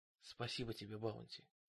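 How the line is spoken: Whisper. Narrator (Russian): прошептал Джейми

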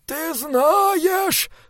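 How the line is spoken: Moaning. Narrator (Russian): стонал монах

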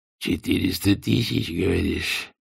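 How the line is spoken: Hoarse rasp. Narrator (Russian): прохрипел он наконец

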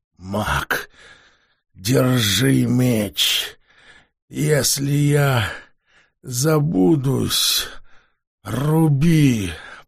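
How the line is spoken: Moaning. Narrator (Russian): простонал Левефревель

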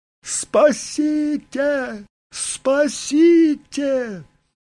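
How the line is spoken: Woman screaming. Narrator (Russian): женщина снова закричала

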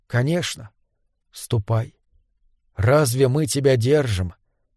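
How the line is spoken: Quiet elf speech. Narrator (Russian): тихо молвил ближайший эльф

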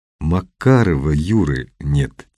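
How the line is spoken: Quiet. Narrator (Russian): тихо сказал Немоляев

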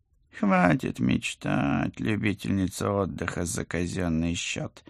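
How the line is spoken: Serious mutter. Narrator (Russian): с серьезной миной пробормотал профессор

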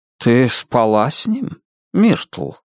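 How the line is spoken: Gentle question. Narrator (Russian): спросил он мягко

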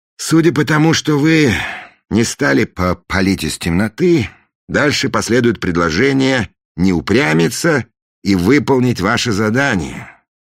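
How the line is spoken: Sighing. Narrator (Russian): вздохнул Фандорин

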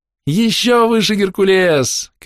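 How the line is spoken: Shouting. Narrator (Russian): кричал он

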